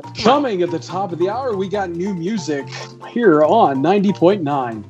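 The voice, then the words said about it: Radio DJ voice. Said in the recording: “I did have a DJ voice.”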